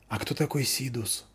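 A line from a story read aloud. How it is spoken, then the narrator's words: Whispered question. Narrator (Russian): спросила Заверушка шепотом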